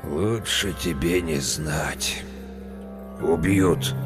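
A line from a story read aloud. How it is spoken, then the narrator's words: Hoarse. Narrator (Russian): Мужик хрипло изрек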